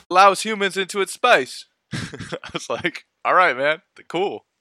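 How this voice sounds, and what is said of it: Bad put-on Australian accent. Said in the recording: “that was a terrible accent. ... I'm very sorry to all Australians.”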